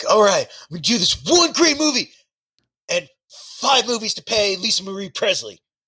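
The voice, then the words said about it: Imitates another person's voice. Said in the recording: “he's describing this plan right now in that impression.”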